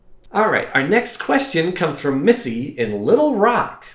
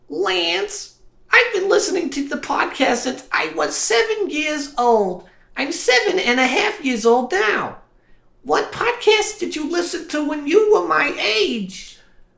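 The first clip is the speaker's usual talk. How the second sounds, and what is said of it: Imitates a young child's voice. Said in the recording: “I'll try to do her voice.”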